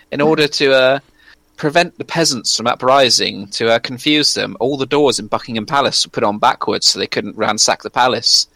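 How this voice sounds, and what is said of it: British accent. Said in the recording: “all British people is you can say anything, and because of that accent, we are inherently programmed to believe you”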